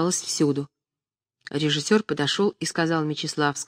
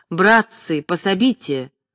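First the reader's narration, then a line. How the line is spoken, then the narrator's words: Angry shout. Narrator (Russian): гневно сказал Остроухов и, обращаясь к кулисам, закричал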